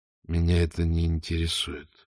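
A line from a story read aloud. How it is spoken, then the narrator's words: Mumble. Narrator (Russian): пробормотал Ваймс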